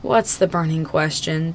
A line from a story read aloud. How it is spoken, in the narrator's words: Tim croaks